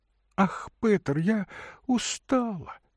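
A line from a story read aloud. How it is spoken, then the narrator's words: Thin moaning. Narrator (Russian): еще тоньше простонала она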